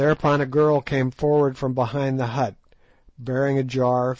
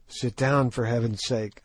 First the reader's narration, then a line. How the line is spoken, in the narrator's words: I whispered